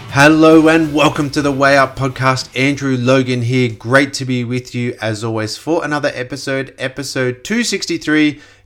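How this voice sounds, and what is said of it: Congested voice. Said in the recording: “I do apologize for my voice. I'm a little bit congested. ... a jet lag, kind of exhaustion weekend”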